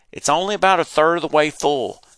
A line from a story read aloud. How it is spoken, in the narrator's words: shouted